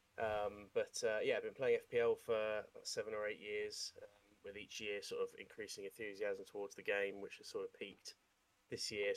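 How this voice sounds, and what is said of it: Thick Scouse accent. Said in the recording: “my thick Scouse accent”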